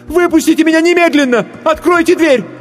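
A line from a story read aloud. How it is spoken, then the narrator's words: Choked, screaming. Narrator (Russian): сглотнула тяжелый ком в горле и закричала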